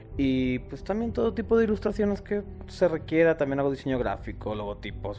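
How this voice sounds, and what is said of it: Spanish accent from Madrid. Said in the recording (Spanish): “con ese acento tan... ... Yo soy de Madrid, de España.”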